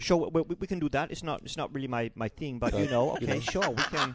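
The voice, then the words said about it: Imitates another person's voice. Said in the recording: “Ronnie Cheng impersonation”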